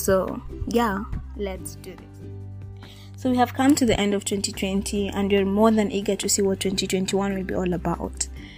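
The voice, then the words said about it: Slightly rusty, hoarse voice. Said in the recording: “my voice is a little bit rusty... it's a little bit rusty. So at some point I know I'm going to like clear my throat or do something or get out of breath”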